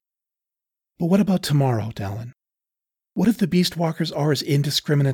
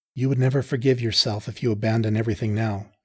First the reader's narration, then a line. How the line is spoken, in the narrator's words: she said softly